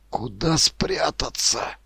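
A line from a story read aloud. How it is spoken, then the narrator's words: Whisper. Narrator (Russian): шепнул Ермак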